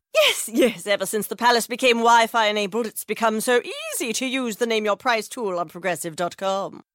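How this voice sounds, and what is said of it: Imitates a royal family voice. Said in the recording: “this is my impression of a tech-savvy royal family”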